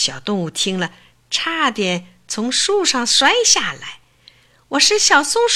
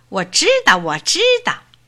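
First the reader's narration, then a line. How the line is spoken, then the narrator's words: Shouting while running off. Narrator (Chinese): 一面嚷，一面就跑了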